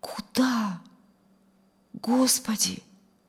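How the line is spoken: Reverent, humble whisper. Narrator (Russian): Прошептал он в благоговейном смирении

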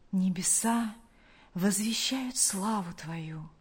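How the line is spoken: Confident whisper. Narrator (Russian): прошептал он в уверенности, что был услышан тем, кто любит его

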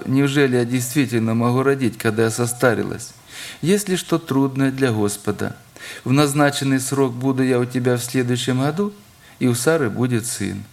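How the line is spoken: Laughing woman. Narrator (Russian): рассмеялась, Сара, сказав

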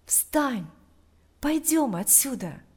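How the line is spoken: Whisper in the ear. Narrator (Russian): Тот же голос прошептал ему на ухо

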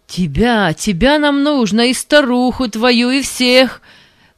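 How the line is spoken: Shouting. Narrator (Russian): крикнул Панас

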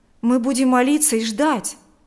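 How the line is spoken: Agitated. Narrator (Russian): взволнованно сказал Берни

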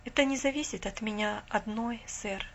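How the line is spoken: Calm. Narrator (Russian): спокойно сказала она

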